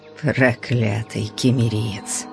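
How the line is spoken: Quiet grumble. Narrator (Russian): проворчал Стром, но так тихо

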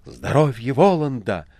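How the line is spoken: Exclaiming. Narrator (Russian): воскликнула Маргарита

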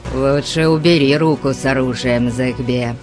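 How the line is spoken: Grumbling. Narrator (Russian): проворчал

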